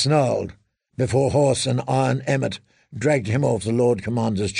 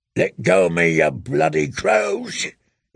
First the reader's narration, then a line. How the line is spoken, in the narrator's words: he roared